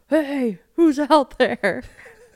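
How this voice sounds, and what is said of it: Imitates another person's voice. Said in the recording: “Is that a good impersonation? ... Yeah, sounds just like me.”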